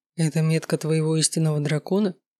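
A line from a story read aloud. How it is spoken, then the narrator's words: Quiet question. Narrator (Russian): тихо спросил Данте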